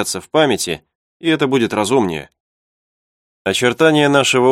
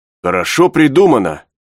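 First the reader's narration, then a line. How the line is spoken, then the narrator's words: Exclamation. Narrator (Russian): воскликнул Пенкроф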